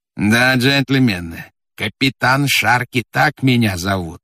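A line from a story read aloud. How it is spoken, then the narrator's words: Plain. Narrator (Russian): сказал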